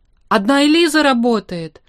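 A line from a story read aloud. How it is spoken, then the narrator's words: Irritated shout. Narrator (Russian): раздраженно крикнул Штерн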